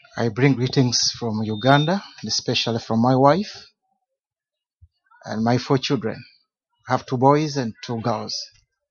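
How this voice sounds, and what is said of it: Speaks English with a foreign accent. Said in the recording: “I pray that you understand my accent, because I also try to understand yours.”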